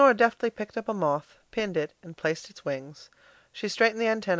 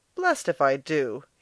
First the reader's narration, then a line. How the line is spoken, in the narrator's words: he cried